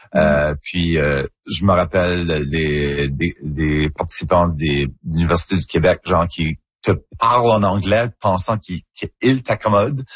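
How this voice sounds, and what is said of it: Acadian French accent, rounded and colorful. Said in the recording (French): “c'est juste mon accent en Acadie. C'est comme ça qu'on parle ... un accent un petit peu plus coloré, un petit peu plus mm-hmm. arrondi”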